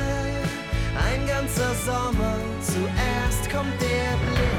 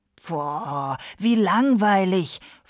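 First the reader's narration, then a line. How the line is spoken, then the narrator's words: Hissing, several voices. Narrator (German): fauchten seine Geschwister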